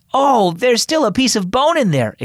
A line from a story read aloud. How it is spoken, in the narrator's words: exclaimed Tessa